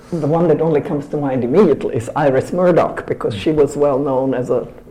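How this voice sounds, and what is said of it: Noticeable foreign accent. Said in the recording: “my eccentric foreign name and my quite noticeable accent”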